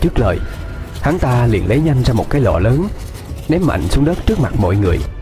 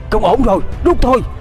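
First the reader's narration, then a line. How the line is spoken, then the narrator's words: Urgent loud shout. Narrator (Vietnamese): Một tên thầy tà gần đó vội hét lớn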